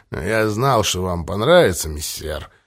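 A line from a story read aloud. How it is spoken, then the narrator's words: Mumble. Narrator (Russian): пробормотал Квадриго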